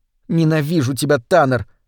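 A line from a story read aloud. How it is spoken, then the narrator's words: Muttered through teeth. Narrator (Russian): пробормотала она сквозь зубы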